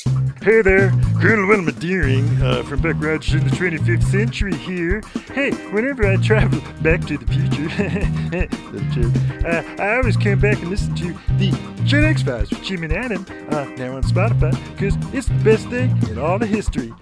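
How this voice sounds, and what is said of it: Poor Wilma Deering impersonation. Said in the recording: “All celebrity voices are poorly impersonated.”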